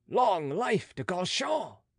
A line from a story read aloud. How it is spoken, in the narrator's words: was the shout